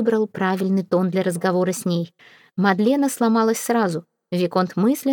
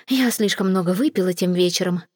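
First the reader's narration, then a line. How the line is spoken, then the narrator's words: Muttered. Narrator (Russian): пробормотала Мадлена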